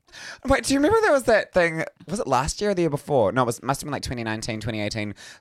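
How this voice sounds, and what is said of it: Nasal, monotone New Zealand accent. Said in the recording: “New Zealand accents were voted the world's sexiest accent. ... I'm so nasal and monotone.”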